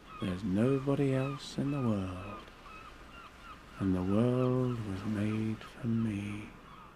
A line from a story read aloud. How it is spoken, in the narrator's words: I'd say to myself